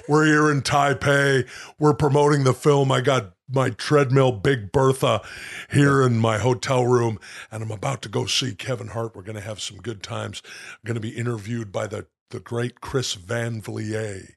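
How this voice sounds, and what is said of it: Wrestler-style impersonated voice. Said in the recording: “And now I'm turning into Jesse Ventura... impersonation... wrestling impersonations”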